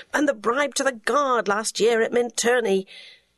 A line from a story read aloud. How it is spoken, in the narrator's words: moaned